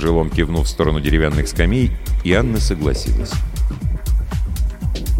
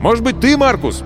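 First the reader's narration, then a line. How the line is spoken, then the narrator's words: Shouted. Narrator (Russian): крикнул он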